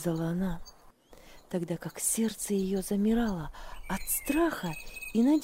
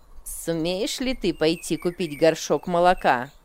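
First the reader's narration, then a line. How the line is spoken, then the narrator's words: Rude question. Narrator (Russian): грубо спросила она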